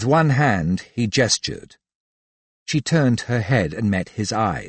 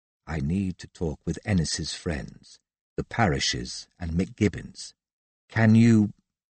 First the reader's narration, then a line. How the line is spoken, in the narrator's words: whispered